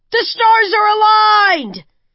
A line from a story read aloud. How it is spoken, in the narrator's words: shouted